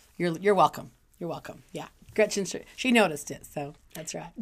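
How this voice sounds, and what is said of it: Raspy, slightly husky voice. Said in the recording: “my voice got a little raspy, so if it sounds sexier than normal”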